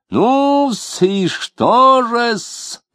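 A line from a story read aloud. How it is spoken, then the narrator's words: Playful squeal. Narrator (Russian): задорно взвизгнул Лютов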